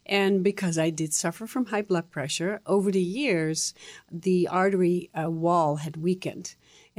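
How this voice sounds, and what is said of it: Dutch accent. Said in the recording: “I'm sure that our listeners are detecting a bit of an accent from you. You came to this country at only 19 from the Netherlands.”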